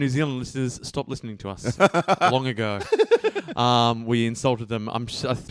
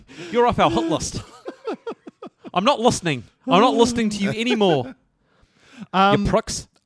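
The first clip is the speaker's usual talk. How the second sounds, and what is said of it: Put-on New Zealand accent. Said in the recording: “terrible New Zealand accent”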